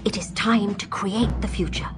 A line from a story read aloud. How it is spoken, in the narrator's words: Atricar whispered